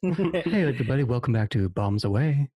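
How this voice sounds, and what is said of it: Sultry public-radio announcer voice. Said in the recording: “Whoa, sultry. ... My NPR voice.”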